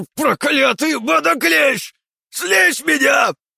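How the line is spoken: Shouting while struggling. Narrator (Russian): прокричал сопротивляющийся Сухоруков

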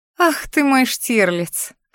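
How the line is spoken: Laughing. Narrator (Russian): хохотнула я

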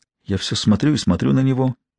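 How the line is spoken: Quiet, trembling. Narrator (Russian): негромко, дрожащим голосом заговорила Джун

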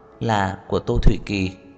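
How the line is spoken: Gentle. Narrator (Vietnamese): Khả Hinh dịu dàng nói

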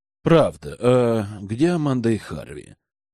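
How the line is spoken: Soft whisper in ear. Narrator (Russian): тихо прошептал Эдвард на ушко жены

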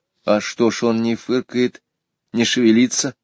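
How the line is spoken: Plain. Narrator (Russian): спросила Варя

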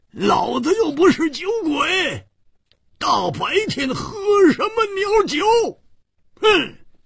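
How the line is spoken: Angry roar. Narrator (Chinese): 胡铁花更是满肚子的怨气没处发，大声地吼叫着

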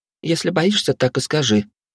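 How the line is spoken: Innocent tone. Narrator (Russian): невинным тоном произнесла Вилли

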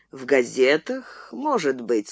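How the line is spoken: Plain. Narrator (Russian): сказал Браун

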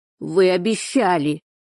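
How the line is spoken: Shouted. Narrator (Russian): выкрикнул он

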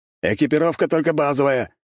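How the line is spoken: Shouting after someone. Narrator (Russian): крикнул ему вслед Дьерк

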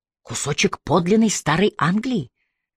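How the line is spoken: Whispered reply. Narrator (Russian): прошептал в ответ

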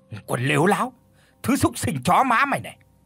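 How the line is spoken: Furious hiss through teeth. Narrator (Vietnamese): Tiếng lão rít qua kẽ răng, sắt mặt thì hầm hầm giận dữ

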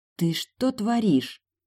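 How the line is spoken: Hoarse whisper. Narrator (Russian): прошептала сипло

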